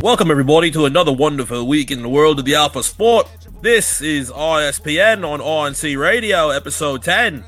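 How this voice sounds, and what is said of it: Put-on English accent. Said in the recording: “The long English accent ... a nice little English accent”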